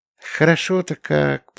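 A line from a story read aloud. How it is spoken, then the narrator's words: Muttering. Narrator (Russian): пробормотала Юля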